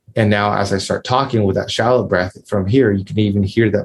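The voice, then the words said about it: Tight, restricted shallow-breath voice. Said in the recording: “my voice is a little bit more restricted ... your voice is actually tighter”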